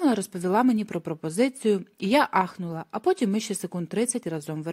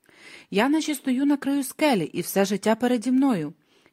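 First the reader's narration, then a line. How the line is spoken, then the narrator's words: Hoarse, emotional whisper. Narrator (Ukrainian): вона хрипко прошепотіла ці слова, приголомшена, обнадіяна і вразлива водночас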